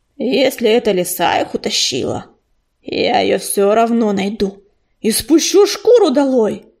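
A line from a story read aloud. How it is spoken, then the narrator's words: Angry growl. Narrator (Russian): прорычал он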